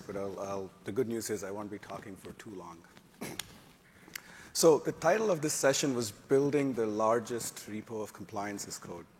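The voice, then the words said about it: Raspy, hoarse voice. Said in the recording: “I apologize for my raspy voice”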